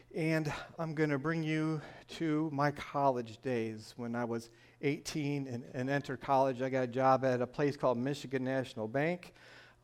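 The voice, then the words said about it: Northern US Michigan accent. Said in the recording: “my northern accent, I am from Michigan”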